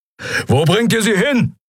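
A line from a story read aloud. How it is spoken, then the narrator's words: Roaring shout. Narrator (German): brüllte Keru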